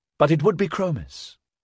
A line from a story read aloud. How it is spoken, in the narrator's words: she corrected kindly